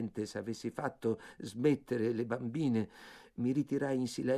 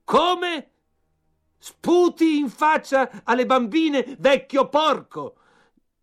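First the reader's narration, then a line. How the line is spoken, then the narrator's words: Furious red-faced shout. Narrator (Italian): Tutto rosso in viso, gridò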